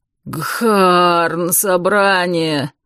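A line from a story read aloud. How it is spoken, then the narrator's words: Groaning. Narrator (Russian): простонал водник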